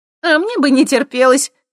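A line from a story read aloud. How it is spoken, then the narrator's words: Smirking snort. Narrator (Russian): хмыкнула Светка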